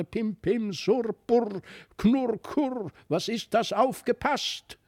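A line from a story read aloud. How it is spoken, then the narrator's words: Angry buzzing, rasping grumble. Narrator (German): Der wurde aber dann ganz zornig, brummte und summte und schnarrte und knarrte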